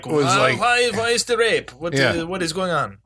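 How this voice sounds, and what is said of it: Put-on Spanish accent. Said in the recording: “That was your Spanish accent?”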